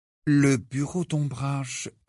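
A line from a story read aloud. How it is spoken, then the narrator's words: Low voice. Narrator (French): répondit Harry à mi-voix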